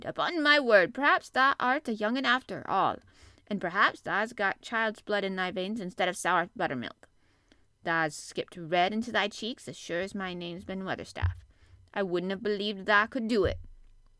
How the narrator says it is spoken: exclaimed

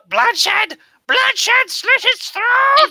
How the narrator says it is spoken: He's shouting out

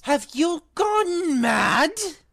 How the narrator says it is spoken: Ron bellowed

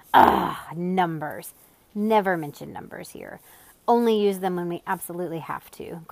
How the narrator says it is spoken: growled Azaz disgustedly

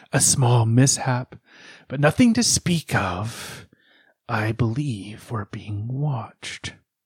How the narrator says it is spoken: he said in a raspy voice

